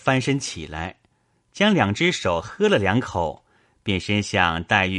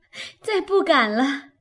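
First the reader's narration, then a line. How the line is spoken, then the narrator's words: Laughing. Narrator (Chinese): 黛玉笑道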